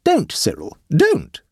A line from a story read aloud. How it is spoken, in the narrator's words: exclaimed the aunt